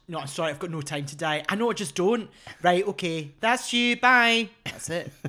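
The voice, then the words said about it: Put-on Scottish accent. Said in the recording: “my impression of that movie if it was filmed in Scotland”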